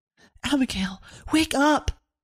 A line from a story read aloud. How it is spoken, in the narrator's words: Severin whispering as loudly as she could